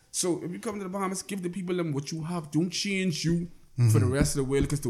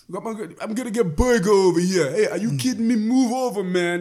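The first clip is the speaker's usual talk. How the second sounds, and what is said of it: Put-on New York accent. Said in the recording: “That New York accent, that New Jersey accent.”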